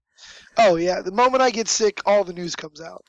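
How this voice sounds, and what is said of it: Very hoarse voice. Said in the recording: “tremendously hoarse”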